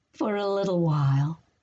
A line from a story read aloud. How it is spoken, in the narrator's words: Lily added, chuckling at what she'd said